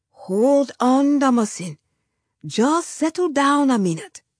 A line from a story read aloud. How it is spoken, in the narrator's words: my father said